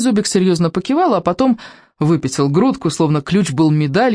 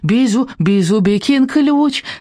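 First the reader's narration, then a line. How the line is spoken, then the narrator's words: Happy squeak. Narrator (Russian): радостно пискнул Бизубик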